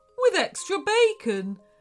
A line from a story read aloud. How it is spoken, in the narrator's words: whined Lincoln